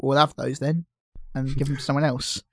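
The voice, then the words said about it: Slightly Cockney accent. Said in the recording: “That's also how FIFA speak, in like a slightly Cockney accent.”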